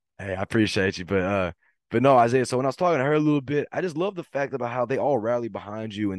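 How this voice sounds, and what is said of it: Slightly hoarse voice. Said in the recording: “I'm a little bit hoarse from yesterday's game”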